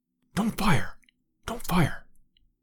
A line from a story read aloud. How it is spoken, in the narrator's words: whispered Lord John